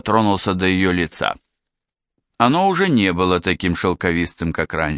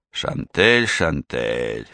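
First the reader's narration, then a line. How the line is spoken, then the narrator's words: Sigh. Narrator (Russian): вздохнул он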